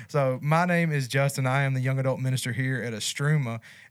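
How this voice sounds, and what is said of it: Country accent. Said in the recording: “my country accent”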